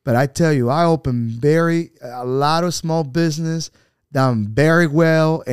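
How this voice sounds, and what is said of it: Very strong accent. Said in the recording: “I might have a very strong accent,”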